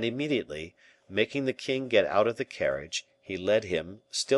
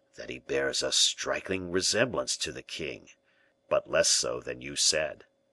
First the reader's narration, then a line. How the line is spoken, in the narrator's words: he said in a low tone